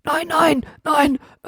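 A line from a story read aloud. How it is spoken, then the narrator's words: Panting. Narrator (German): keuchte Hotzenplotz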